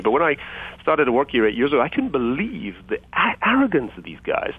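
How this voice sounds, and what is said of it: Non-American foreign accent. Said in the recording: “You can tell from my funny accent that I wasn't born and raised in the USA.”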